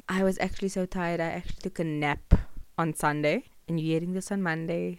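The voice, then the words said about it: Sick, unsteady voice. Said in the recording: “I'm slightly sick, so I apologize for my voice that was all over the place”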